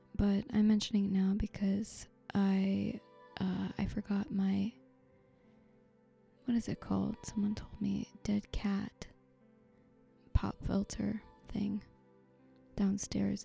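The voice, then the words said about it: Tired voice. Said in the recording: “my voice is very tired, and you might be able to hear this”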